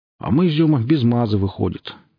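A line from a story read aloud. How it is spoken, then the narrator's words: Glum snort. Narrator (Russian): невесело хмыкнул кто-то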